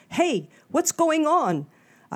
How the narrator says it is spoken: A guy across the street shouted it

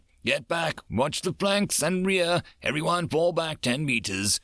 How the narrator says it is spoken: the gunnery sergeant roared

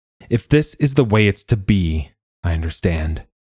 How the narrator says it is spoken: he said, evenly, slowly, so that they had to lean into the words to follow him

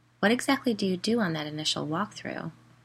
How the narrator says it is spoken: I asked

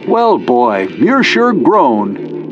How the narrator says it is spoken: he said in a loud, cheerful voice

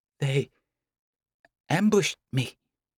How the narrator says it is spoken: Karma stammers, the reply true enough that he does not have to think

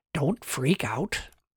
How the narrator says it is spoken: whispered, in as calming a tone as he could

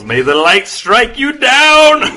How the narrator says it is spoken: He yells

